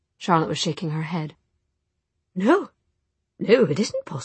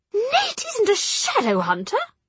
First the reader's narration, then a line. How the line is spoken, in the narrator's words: she cried